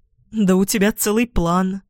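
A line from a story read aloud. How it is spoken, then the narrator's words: Tired, smiling. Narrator (Russian): устало улыбаюсь я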